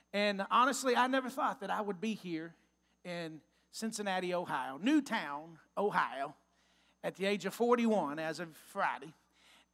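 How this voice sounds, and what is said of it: Texas accent. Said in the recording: “I'm from Texas. If you can't tell from my accent yet, I'm a Texas boy.”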